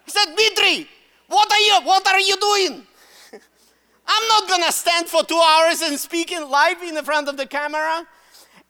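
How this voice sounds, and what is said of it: Russian accent. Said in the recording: “Why do I use Russian accent? I'm Russian. ... That's my Russian accent right there.”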